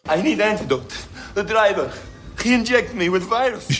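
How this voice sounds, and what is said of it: Convincing Russian accent. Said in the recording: “Convincing Russian accent.”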